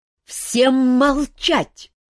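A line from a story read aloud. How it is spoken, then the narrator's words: Sudden loud bark. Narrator (Russian): неожиданно громко рявкнул мэтр Истран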